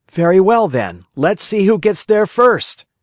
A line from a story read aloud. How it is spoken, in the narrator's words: cried Pinocchio